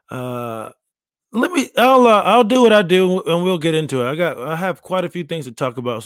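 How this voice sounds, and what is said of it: Hoarse, worn-out voice. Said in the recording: “extra sexy voice. I just woke up. I was yelling on weekend. My voice is a little shot.”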